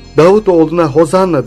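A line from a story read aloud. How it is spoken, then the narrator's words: Children shouting. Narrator (Turkish): diye bağıran çocukları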